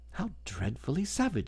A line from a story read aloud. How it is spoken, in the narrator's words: exclaimed Alice